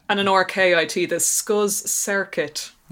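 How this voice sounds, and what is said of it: Put-on Irish accent, overpronounced r. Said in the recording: “In my handy Irish accent for my overpronounced or”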